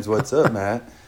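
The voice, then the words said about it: Put-on sexy, smooth voice. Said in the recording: “That was my sexy voice.”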